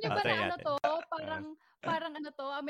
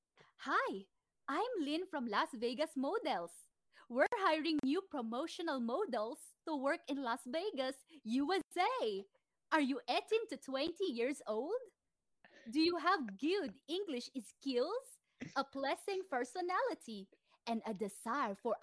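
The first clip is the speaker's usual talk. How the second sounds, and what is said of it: Put-on American accent. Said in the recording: “American accent”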